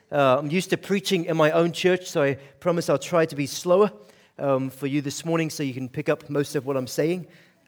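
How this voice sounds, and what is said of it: Scottish accent, Aberdeen. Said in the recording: “I am from Scotland. Grew up in Aberdeen, Scotland. So I've got to kind of give you an explanation for the accent.”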